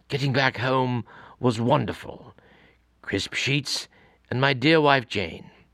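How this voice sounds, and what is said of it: David Attenborough impression. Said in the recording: “let me try this in a David Attenborough voice.”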